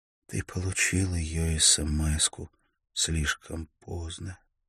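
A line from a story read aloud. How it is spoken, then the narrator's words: Altered whisper. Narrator (Russian): Микаэль едва узнал ее голос, когда она прошептала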